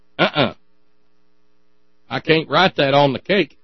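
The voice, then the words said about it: Put-on southern twang. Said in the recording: “there I go with the accent, with the southern twang again”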